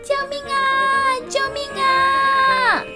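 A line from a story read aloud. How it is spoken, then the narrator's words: Shouting for help. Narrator (Chinese): 喊救命的声音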